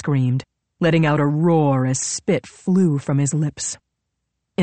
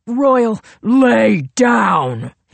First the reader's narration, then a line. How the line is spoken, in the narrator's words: he snarled, his voice booming through the backyard